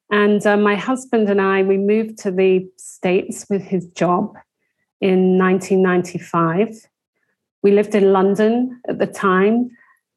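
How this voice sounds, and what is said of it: English accent. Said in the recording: “you can tell from my accent that I grew up in England”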